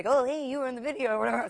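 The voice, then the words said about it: Imitates another person's voice, badly. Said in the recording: “that's a bad impression ... it's impossible to do Bob Dylan”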